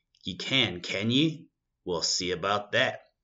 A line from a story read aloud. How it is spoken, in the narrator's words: said they